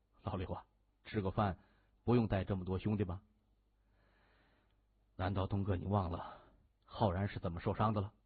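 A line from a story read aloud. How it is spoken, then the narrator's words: Low voice. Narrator (Chinese): 谢文东对刘波低声说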